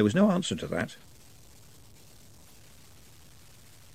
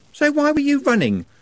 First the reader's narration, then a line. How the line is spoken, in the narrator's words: said Juliet sharply